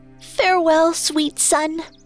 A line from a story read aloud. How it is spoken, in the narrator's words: she cried